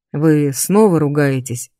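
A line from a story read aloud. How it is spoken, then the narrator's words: Snorting, mildly amused. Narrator (Russian): хмыкнул профессор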